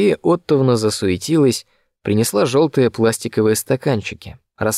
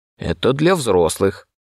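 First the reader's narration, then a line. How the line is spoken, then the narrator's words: Grumbled. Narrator (Russian): проворчала Мария Оттовна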